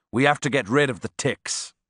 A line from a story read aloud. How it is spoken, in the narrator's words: he said